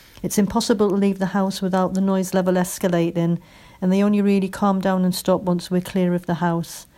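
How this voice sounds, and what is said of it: Northeast English accent. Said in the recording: “from your accent, I'd say you're from the northeast”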